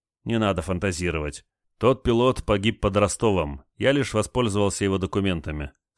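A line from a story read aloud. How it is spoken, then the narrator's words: Stern reply. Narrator (Russian): строго ответил Олег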